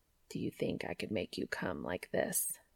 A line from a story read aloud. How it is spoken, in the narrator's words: Cass asked, his voice maddeningly even